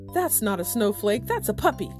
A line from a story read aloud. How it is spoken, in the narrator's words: exclaimed their neighbors